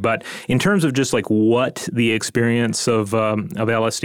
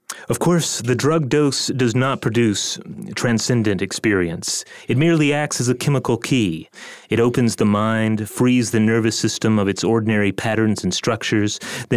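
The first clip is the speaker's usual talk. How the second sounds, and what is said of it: Imitates another person's voice. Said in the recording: “my impersonation of Timothy Leary”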